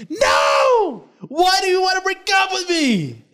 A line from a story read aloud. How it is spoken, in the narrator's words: I started yelling